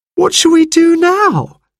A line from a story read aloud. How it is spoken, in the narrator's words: wailed Jane